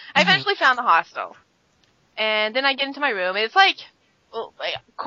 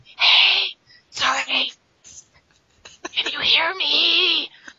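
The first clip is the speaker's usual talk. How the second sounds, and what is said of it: Whispering. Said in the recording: “I'm whispering”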